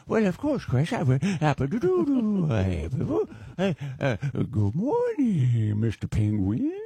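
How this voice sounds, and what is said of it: Adam Sandler impression. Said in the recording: “would you say good morning to me in your Adam Sandler voice?”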